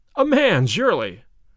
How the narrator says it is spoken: I cried

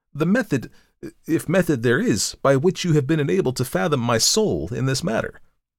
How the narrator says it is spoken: I exclaimed

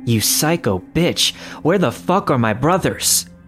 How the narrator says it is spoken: he yelled

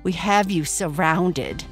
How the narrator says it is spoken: sneered the crooked-tailed raccoon

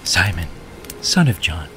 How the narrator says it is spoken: he said gently

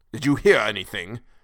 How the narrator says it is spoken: asked Tussman harshly and in a manner almost threatening and accusing

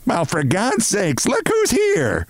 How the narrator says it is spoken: bawled Mrs

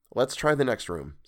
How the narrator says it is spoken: said Dick

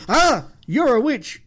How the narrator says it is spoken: my shout at the screen

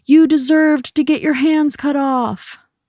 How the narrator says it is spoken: a boy in the audience yelled

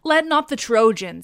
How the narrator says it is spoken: cried

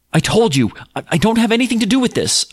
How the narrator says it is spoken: I yelled

